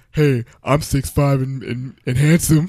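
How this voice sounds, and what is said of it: Imitates another person's voice. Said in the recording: “That's not my Bo impression. ... That's pretty close.”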